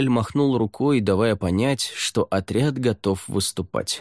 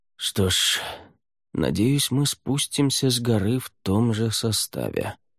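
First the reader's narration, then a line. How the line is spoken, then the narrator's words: Muttering. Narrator (Russian): пробормотал Рай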